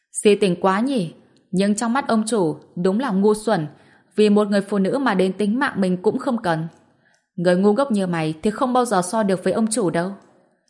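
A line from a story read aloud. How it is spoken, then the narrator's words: Laughing. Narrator (Vietnamese): Gã đeo kính nghe thấy vậy thì bật cười, nói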